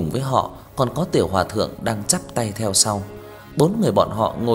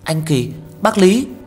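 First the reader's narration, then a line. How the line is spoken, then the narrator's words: Surprised exclamation. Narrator (Vietnamese): kinh ngạc kêu lên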